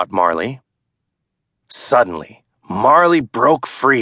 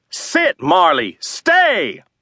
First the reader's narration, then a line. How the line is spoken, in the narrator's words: yelled Daddy